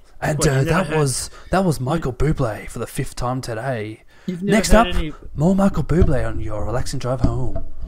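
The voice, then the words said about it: Smooth radio DJ voice. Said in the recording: “radio voice ... Smooth FM”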